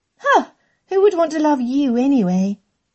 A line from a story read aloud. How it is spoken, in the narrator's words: Emma scoffed